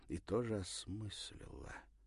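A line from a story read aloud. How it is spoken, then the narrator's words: Very quiet. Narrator (Russian): добавила совсем тихо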